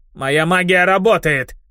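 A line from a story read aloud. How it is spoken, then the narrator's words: Angry snap. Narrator (Russian): Злобно огрызнулся зеленокожий барон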